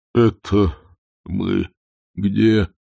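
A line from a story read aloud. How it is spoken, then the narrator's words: Moan. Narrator (Russian): простонал он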